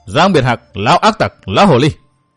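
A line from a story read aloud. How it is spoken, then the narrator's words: Loud mocking scolding. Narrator (Vietnamese): người áo đen cao giọng nhại mắng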